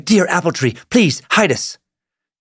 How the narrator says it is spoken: the girl begged

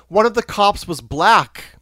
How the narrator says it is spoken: He shouts

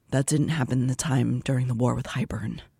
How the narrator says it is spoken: Azriel murmured

